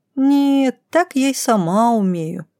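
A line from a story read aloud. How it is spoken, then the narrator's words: Disappointed child's drawl. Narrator (Russian): разочарованно протянула малышка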